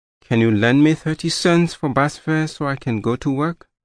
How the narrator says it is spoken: said, in an embarrassed tone

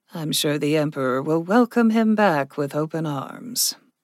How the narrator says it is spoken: Rudit said dryly

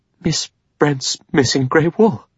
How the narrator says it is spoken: She said, and her voice shook with horror

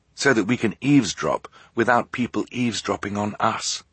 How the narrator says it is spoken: Klaus whispered

